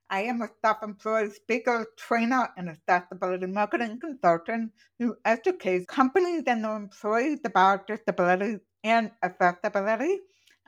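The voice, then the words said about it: Deaf speaker's accent. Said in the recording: “I was born profoundly deaf, and that came with this accent. It's not a British accent”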